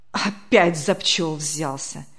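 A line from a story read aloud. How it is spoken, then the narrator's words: Annoyed grumble. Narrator (Russian): с досадой проворчал председатель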